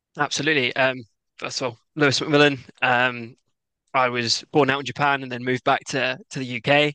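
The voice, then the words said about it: English accent. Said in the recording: “I've got this English accent ... I decided to go to university in Glasgow to try and get an accent, and as you can tell, that also failed”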